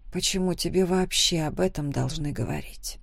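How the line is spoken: Quiet. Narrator (Russian): Тихо ответила

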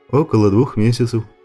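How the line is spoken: Plain. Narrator (Russian): ответил Женя

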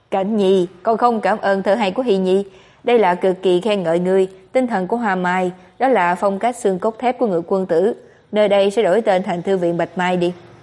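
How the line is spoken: Father laughing loudly. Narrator (Vietnamese): phụ thân từng cười lớn nói

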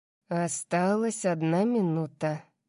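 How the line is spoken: Muttered. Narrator (Russian): пробормотал он

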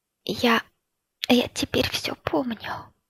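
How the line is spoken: Whisper. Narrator (Russian): сказала шепотом

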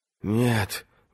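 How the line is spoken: Breathed out. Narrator (Russian): выдохнула Бриенна

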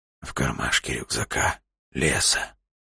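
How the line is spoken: Wheezed hoarsely. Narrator (Russian): просипел Илья

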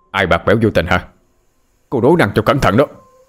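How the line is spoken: Louder shout. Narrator (Vietnamese): quát to hơn

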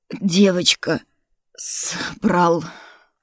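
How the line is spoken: Strained breathless. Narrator (Russian): выдохнул Дурбин сквозь силу

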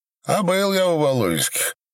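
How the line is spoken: Laughing. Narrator (Russian): чему-то засмеялся Боба

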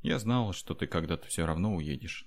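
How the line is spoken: Sad wry smile. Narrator (Russian): грустно усмехнулась Аура

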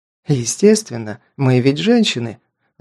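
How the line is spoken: Joyful. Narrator (Russian): радостно

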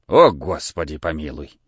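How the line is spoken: Old man, halting, barely opening mouth. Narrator (Russian): Старик и говорил так, как будто было очень холодно, с расстановками и не раскрывая как следует рта

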